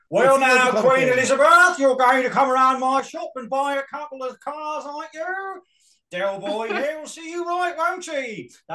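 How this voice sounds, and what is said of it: Impression of a sitcom character's voice. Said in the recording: “my Boise impression ... It's not a bad Boise. ... It's actually not bad.”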